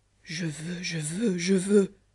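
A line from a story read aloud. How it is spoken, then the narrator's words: Low repeated muttering. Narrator (French): à voix basse il répétait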